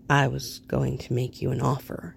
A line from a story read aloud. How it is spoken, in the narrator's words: he admits quietly